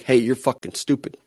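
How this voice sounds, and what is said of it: Put-on New York accent. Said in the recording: “That was my attempt at a New York accent.”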